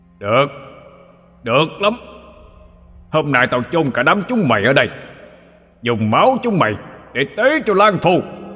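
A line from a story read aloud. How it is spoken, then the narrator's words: Owl's shout. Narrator (Vietnamese): Con cú quát lên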